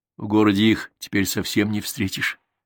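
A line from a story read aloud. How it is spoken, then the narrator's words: Plain. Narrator (Russian): сказала она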